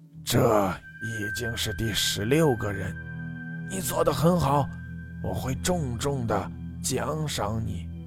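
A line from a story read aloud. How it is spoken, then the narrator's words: Hoarse voice over phone. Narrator (Chinese): 电话的另一端传出一句话，沙哑的声音说道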